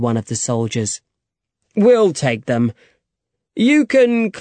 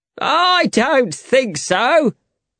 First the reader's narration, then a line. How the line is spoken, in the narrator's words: shouted Jack